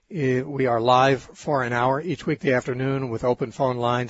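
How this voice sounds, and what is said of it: Voice sounds strange, altered. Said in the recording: “my voice is a little strange today, as it sometimes is”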